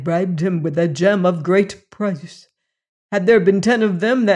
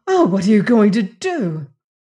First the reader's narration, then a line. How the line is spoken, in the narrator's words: the latter exclaiming